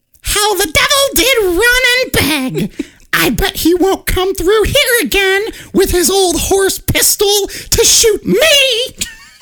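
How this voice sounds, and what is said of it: Witch character voice. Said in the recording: “I like your witch voice.”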